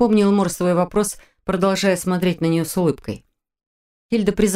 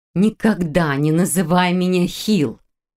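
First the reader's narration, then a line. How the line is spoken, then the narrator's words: Near growl. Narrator (Russian): почти прорычала Хильда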